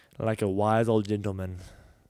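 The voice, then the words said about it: Bad put-on Irish accent. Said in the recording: “Why did I sound Irish there? ... That was a terrible accent.”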